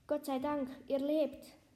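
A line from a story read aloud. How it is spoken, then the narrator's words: Calling out. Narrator (German): rief Lina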